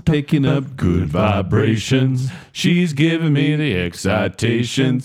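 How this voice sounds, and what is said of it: Singing in falsetto. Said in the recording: “Our falsetto”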